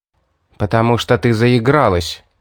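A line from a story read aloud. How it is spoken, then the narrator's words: Angry grumble, winged creature. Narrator (Russian): Зло буркнуло крылатое создание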